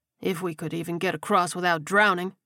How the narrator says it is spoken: Daryl snapped

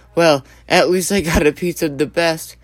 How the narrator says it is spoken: Sam chuckled and thought to himself

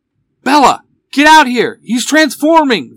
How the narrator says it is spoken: Van shouts from the alley

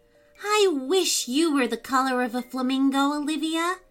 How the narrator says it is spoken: said Jojo with a sigh

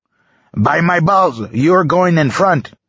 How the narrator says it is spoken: The soldier refused angrily

